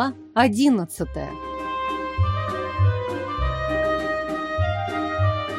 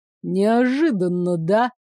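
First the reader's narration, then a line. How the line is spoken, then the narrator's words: Nervous giggle, bass voice. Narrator (Russian): нервно хихикнула я басом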